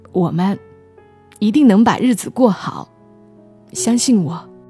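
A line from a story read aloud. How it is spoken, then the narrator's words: Sobbing, choked voice. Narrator (Chinese): 丁大勇开始抽泣，哽咽着说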